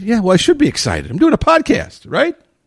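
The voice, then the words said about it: Peppy, energetic voice. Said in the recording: “My voice is a little peppy today, right? ... that pep and energy is still there”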